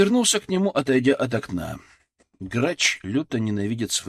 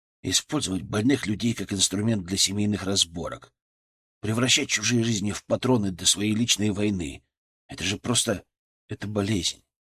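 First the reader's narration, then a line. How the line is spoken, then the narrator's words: Quiet, almost to himself. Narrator (Russian): сказал я тихо, почти про себя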